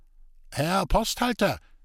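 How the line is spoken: Worried call from carriage. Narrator (German): rief des Weiteren nicht weniger beunruhigt der handlungsreisende Köpke aus Magdeburg aus dem Wagen heraus

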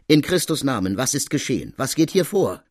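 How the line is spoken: Calling out. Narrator (German): ruft sie

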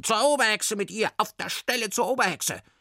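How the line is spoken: Witches shrieking. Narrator (German): Die Berghexen kreischten

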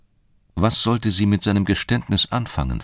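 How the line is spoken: Plain question. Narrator (German): fragte sie ihn

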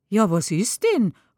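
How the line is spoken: Exclaiming. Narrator (German): ruft aus

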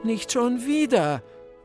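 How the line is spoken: Groaning. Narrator (German): stöhnte ich

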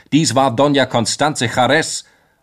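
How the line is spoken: Stranger calling out. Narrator (German): rief ein Unbekannter

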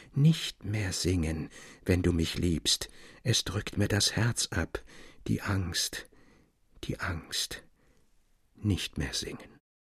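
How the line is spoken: Very quiet, muffled plea. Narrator (German): bat sehr leise und dumpf

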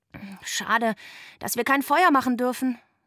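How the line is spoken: Sighing. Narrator (German): seufzte ich

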